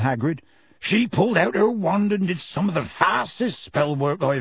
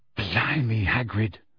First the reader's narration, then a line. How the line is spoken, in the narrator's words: said Ron quietly